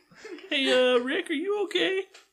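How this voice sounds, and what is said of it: Cartoon character voice impression. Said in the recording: “I can't do a Morty impression.”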